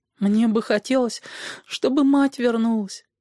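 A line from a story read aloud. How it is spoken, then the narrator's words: Pitiful. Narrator (Russian): сказал он жалким голосом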